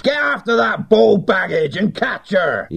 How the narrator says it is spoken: he howled

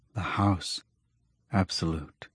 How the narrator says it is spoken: the Ulan muttered

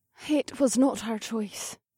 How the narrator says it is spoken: Prayna said quietly

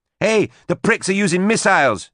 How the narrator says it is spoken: she cried

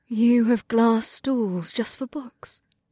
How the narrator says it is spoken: She asked with a reverent gasp

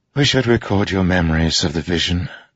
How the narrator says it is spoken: Navani said with a sigh

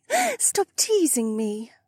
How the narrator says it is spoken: Becca giggled

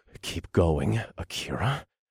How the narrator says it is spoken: ordered in a breathless voice

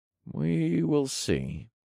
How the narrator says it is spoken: I said in a vague tone

